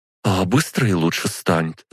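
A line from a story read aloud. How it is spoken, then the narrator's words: Anxious daughter clarifying. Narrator (Russian): взволнованно уточнила дочь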